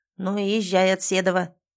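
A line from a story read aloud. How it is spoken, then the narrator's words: Old man's sudden bark. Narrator (Russian): неожиданно гаркнул старик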